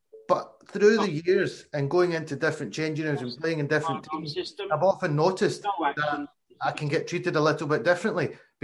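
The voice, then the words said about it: Glaswegian Scottish accent. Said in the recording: “I'm born and bred, Glaswegian, Glasgow accent.”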